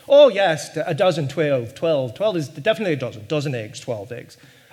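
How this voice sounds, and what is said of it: Badly imitated Irish accent. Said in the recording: “you have to hear it into the Irish accent, which I will butcher, of course ... so that was Irish”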